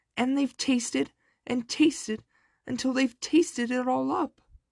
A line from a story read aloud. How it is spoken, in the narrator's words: squealed the baby bear